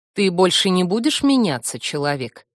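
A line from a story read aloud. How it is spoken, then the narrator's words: Plain question. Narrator (Russian): спросил Вильт Толмач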